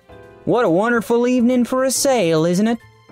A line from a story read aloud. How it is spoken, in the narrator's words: Todd said in a light southern feminine accent